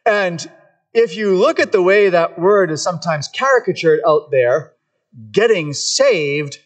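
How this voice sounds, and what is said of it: Usual voice. Nothing is said of it.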